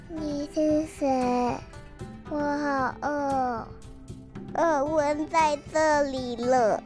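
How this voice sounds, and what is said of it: Weak, feeble voice. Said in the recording (Chinese): “用虚弱的声音说着”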